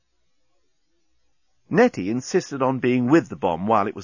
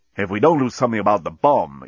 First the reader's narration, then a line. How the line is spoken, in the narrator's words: exclaimed Dan